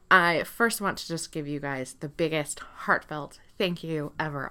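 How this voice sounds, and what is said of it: Excited, energetic speaking voice. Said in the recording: “as you can hear in my voice, I'm super excited”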